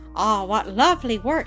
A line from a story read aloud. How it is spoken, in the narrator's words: she exclaimed